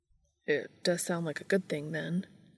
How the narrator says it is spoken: said Dean quietly

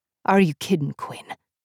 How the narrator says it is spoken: Griffith scoffed

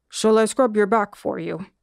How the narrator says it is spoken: the monkey asked, his voice still low

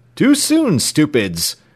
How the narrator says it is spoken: cried James Playfair, with a burst of laughter

